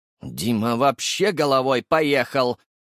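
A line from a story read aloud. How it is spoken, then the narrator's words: Through clenched teeth. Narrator (Russian): процедил Запашный сквозь стиснутые зубы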